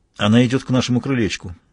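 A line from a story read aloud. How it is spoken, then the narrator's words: Plain. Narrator (Russian): сказал Мазур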